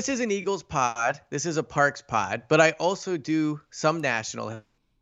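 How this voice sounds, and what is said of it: Usual voice. Nothing is said of it.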